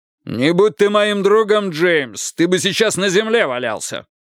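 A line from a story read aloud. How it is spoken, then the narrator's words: Shouting back. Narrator (Russian): крикнул в ответ Пейн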